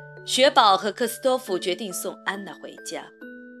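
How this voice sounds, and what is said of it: Usual voice. Nothing is said of it.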